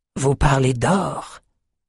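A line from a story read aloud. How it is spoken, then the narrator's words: Knowing, smiling whisper. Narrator (French): souffla Cassia avec un sourire complice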